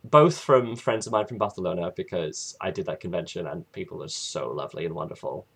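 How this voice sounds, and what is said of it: Odd British-sounding accent. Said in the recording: “my weird British-esque accent that makes no sense ... your funny accent”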